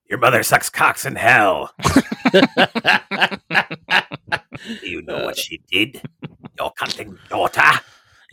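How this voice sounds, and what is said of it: Demon character voice. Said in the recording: “demon voice”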